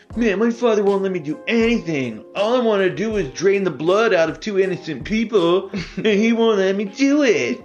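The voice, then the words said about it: Whiny teenage Dracula character voice. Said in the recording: “That was a great impression of teenage Dracula.”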